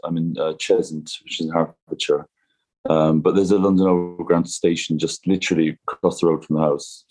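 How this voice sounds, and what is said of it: Irish Cork accent. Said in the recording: “judging from your accent, that's not where you grew up ... I'm from Cork”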